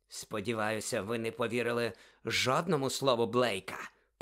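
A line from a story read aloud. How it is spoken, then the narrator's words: Hiss. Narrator (Ukrainian): просичав Снейп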